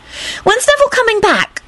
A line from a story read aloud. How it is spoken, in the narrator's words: Rosie blurted out